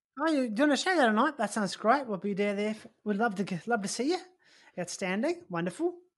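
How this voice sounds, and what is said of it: Put-on Australian accent. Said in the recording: “You got a good Australian accent ... Yours is great ... Oh, yours is fantastic”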